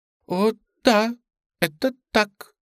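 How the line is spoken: Forced out at last. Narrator (Russian): наконец выдавила она

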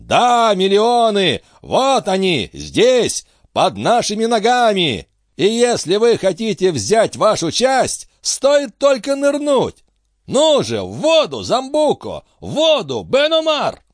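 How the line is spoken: Shouting. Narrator (Russian): он закричал

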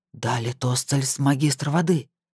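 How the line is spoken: Dismayed whisper. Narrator (Russian): обескураженно прошептала Альфа

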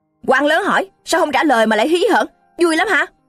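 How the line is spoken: Stern scolding. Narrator (Vietnamese): Thầy trợn mắt nạt rằng

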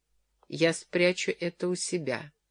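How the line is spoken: Completely calm. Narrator (Russian): сказала совершенно спокойно

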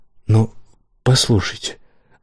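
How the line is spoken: Timid objection. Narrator (Russian): робко возразил Рай

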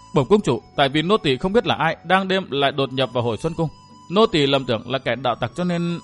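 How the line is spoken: Frightened young woman. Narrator (Vietnamese): thiếu nữ áo xanh sợ hãi

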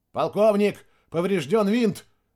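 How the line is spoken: Shouting. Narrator (Russian): закричал пилот

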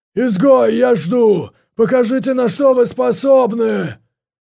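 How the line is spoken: Roaring. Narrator (Russian): Ракхар взревел

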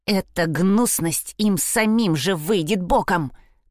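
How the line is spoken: Hissed. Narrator (Russian): прошипела Шпрота

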